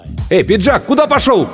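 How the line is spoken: Shouted from behind. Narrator (Russian): кто-то крикнул в спину

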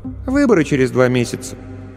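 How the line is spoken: Offhand, casual. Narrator (Russian): Дочка хмыкнула и сказала как бы просто так

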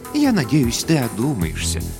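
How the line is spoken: Soft, gentle. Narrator (Russian): мягко произнесла вдова капитана

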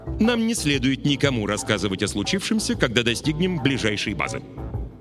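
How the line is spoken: Stern. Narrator (Russian): строго сказала капитан Кабелла

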